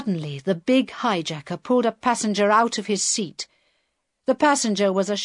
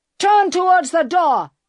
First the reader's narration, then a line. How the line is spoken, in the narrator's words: he shouted